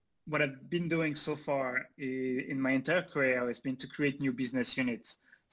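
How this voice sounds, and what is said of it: Slight French accent. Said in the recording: “a bit of a French accent”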